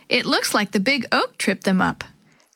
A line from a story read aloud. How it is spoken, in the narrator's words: Chris laughed